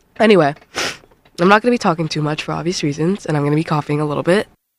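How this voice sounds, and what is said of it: Weak, failing sick voice. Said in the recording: “I am a little bit under the weather, and my voice is kind of gone.”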